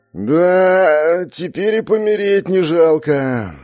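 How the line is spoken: Contented drawl. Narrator (Russian): довольно протянул Алонсо

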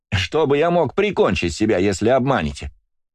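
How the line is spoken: Cheerful explaining. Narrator (Russian): весело объясняет колдун

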